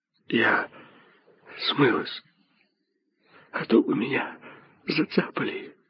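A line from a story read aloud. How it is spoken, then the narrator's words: Clipped whisper. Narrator (Russian): отрывисто шептала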